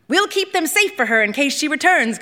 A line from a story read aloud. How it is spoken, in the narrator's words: Konjit said, her voice commanding the space